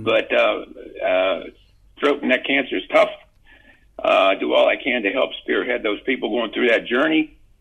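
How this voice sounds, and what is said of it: Weak, strained voice giving out. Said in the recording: “As you probably can tell, I lose my voice when I talk too much”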